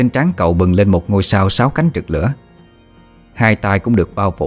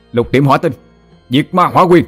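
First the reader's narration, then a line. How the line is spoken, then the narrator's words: Roaring. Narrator (Vietnamese): Hỏa Lân bắt ấn gầm lên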